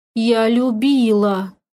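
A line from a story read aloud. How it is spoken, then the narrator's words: Mournful droning. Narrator (Russian): заунывно прогудела она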